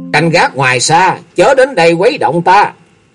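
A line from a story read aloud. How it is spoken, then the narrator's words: Sharp, irritated. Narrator (Vietnamese): Bạch Quân Nghi gắt giọng nói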